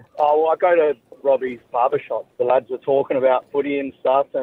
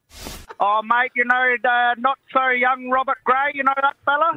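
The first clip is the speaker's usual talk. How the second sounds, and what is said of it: Put-on fake accent. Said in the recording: “Sorry about that accent. ... you put on a fake accent.”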